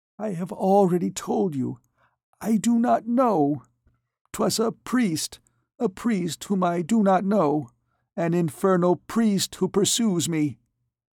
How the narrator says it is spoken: She replied in a broken voice

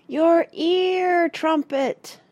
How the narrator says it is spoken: shouted the children in unison

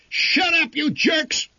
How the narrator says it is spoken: he yelled

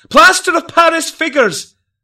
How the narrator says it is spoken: loudly he did cry

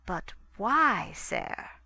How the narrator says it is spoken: said DaCosta slowly

